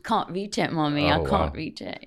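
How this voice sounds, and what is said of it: Child's voice with English accent. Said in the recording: “his now English accent because we're in London”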